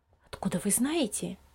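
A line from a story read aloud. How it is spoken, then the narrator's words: Low-voiced question. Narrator (Russian): вполголоса спросила мама Лиза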